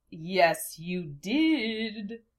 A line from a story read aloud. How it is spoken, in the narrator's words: taunted